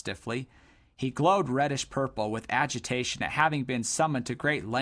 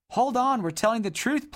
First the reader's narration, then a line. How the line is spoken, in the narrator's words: pleaded Dodd